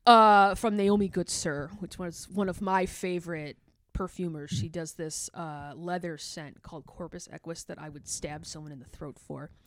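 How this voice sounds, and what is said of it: Midwestern American accent. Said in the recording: “I'm from Chicago and I have a horrible Midwest accent”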